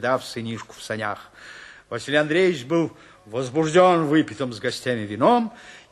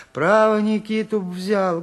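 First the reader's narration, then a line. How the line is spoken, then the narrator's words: Timid speech. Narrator (Russian): говорила, робко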